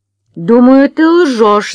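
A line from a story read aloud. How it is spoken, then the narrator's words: Shouted. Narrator (Russian): закричала она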